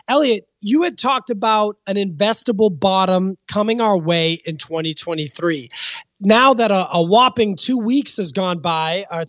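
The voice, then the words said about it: Strained, worn-out voice. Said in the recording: “Did your doctor suggest, that yelling the intro would help improve your voice? ... My voice is down bad post-Miami”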